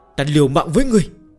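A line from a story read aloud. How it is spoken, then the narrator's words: Group wailing. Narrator (Vietnamese): Những người trẻ tuổi bên dưới đồng loạt gào khóc như chết cha chết mẹ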